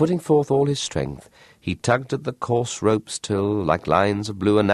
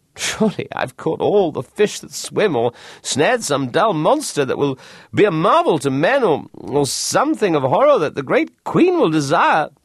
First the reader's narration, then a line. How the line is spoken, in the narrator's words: laughed and said to himself